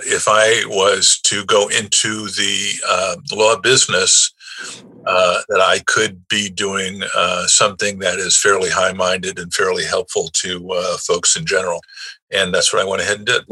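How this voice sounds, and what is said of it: New York accent. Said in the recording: “you don't lose the New York accent. And I can obviously tell you haven't lost it as well. I hear yours well.”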